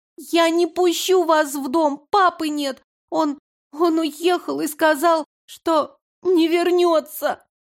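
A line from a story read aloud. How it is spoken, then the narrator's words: Sobbing little girl. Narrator (Russian): Малышка разрыдалась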